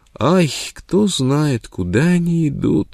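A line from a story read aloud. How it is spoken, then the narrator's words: Sobbing. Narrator (Russian): рыдала Непоза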